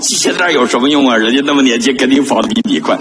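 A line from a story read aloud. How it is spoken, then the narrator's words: Mocking. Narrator (Chinese): 旁边一个人笑我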